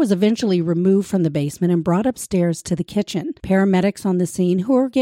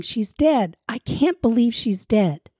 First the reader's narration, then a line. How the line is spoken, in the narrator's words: was distraught, hysterically repeating